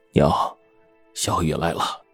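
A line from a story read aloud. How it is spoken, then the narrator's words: Soft, concerned. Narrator (Chinese): 王宇的父亲神情关切，轻声说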